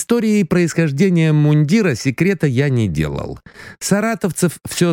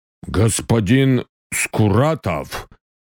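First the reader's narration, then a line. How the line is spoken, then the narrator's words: Deep bass voice. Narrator (Russian): пробасил Мухин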